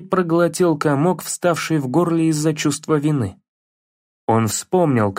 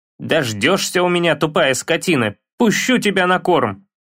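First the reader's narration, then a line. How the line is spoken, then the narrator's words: Angry grumble. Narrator (Russian): Проворчал он сердито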